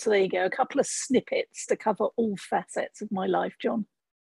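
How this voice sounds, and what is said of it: English accent. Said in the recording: “I note the accent ... the accent I bring with me from the UK. I grew up in England”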